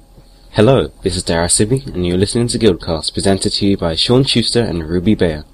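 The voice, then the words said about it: Charming British accent. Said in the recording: “another charming British accent”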